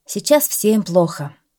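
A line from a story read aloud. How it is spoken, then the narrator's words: Sighing. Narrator (Russian): вздохнул шофер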